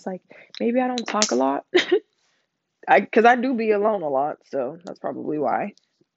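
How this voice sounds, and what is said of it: Strained, hoarse, nasal-sounding voice. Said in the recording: “my throat's getting hella. ... I don't know why my voice has to get like this every podcast. ... I don't want to sound like I'm talking out of my nose”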